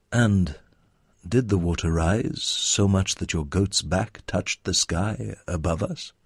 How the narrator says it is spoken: Abdullah Kafka cleared his throat and asked him calmly

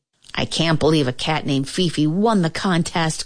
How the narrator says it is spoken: cried Dolores

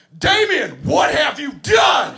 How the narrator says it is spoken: at the top of my lungs, I yell

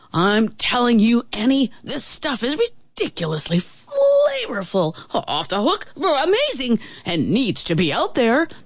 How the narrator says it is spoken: the traveling chef exclaimed

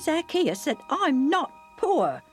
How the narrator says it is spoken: my dad snapped back

